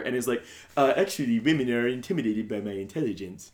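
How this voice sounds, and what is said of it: Put-on quasi-British accent. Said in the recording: “the voice I'm doing is them trying to affect a quasi-British accent”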